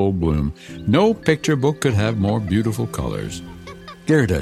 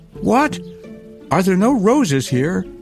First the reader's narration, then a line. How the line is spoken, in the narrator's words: cried Gerda